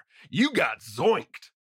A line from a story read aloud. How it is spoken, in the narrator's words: He shouts out while laughing